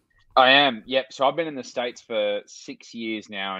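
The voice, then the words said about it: Australian accent. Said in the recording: “the Australian's accent is there, obviously ... my Aussie accent”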